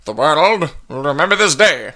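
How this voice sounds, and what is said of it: Transatlantic accent, Oppenheimer impression. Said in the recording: “the transatlantic accent. That's kind of like how Oppenheimer talked. He sort of had that”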